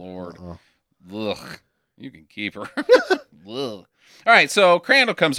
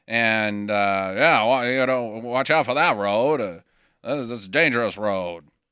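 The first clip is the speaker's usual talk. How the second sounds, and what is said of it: Put-on Maine accent. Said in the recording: “Get used to that accent from all of us for the rest of the podcast. ... That's just the accent of wherever the fuck this place ... It's supposed to be Maine.”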